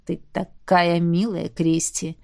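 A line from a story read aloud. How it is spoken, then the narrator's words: Flirtatious purr. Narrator (Russian): мурлыкнул старшекурсник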